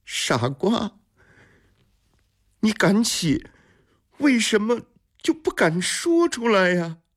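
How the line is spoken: Shouting after someone. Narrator (Chinese): 绿秀冲着马周的背影喊着

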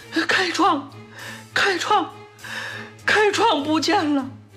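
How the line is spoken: Crying out. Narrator (Chinese): 拒绝着哭喊

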